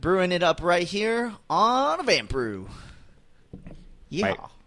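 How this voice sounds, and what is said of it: A little put-on country twang. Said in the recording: “There's yeehaw. A little twang there.”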